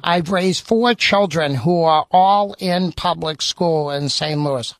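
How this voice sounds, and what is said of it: Noticeable non-local accent. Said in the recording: “notwithstanding my accent”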